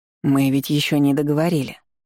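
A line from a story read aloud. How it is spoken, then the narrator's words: Soft objection. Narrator (Russian): мягко возразил он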